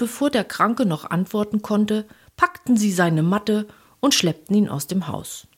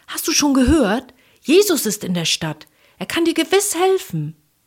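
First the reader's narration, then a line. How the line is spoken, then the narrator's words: Excited calling. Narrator (German): seine Freunde und riefen aufgeregt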